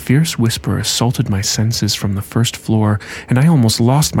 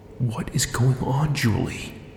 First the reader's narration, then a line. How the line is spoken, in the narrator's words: whispered urgently